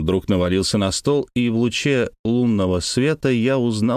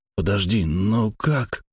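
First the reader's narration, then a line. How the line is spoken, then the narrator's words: Mumbling. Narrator (Russian): промямлил я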